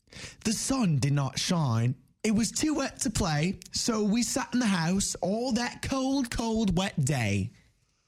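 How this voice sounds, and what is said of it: Put-on British or Australian accent. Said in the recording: “a British or Australian accent. Don't really know how to tell them two apart.”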